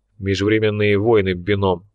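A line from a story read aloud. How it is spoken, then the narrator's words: Displeased grumble. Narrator (Russian): пробурчал Лунин, которому эта идея чрезвычайно не понравилась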